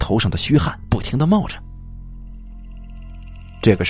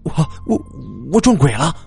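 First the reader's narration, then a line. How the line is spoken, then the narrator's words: Stammering. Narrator (Chinese): 我结结巴巴的说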